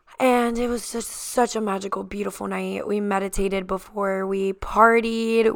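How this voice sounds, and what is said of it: Slightly lost, worn voice. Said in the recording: “My voice is a little gone today because I had such an amazing night last night”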